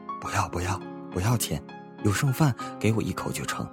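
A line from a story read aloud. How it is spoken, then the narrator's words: Old man, slurred. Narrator (Chinese): 老人 声音很含糊地说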